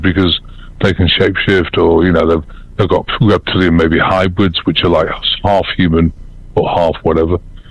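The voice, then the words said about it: British accent. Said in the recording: “I'm still got a British accent”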